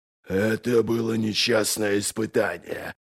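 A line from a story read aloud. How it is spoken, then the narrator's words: Growling. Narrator (Russian): прорычал он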